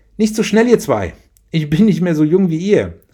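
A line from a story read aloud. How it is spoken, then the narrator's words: Called after. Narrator (German): rief Marie ihren Kindern hinterher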